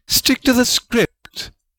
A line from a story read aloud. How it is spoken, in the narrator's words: Rowena snapped